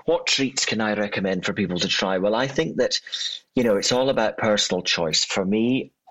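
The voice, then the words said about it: Scottish accent. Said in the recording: “you've got a wonderful Scots accent”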